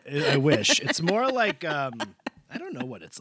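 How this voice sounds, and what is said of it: Usual voice. Nothing is said of it.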